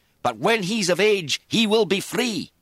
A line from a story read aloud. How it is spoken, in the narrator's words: he raised his voice